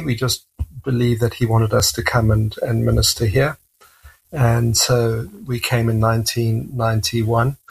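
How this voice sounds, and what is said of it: South African English accent. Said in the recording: “your accent is not what we would consider Canadian ... we immigrated to South Africa, and that's my accent”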